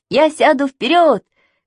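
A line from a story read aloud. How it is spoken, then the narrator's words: Shouting. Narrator (Russian): кричал Саша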